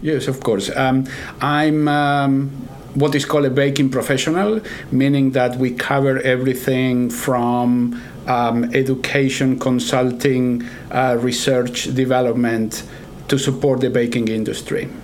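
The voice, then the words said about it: Argentine accent mixed with American. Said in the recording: “where is that accent coming from? ... I'm originally from Argentina ... I picked up accent from different places like Texas, New York, and now I'm in Kansas, so it's an average of all the accents.”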